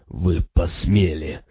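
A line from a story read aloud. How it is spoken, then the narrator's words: Breathless rasp. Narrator (Russian): задыхаясь, прохрипел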